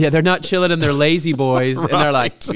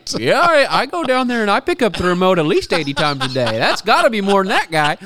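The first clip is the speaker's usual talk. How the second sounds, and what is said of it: Put-on country accent. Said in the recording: “I don't know why he had a country accent.”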